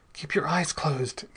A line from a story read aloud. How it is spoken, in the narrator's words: gasped Bell, struggling to get the gun away from those horrible hands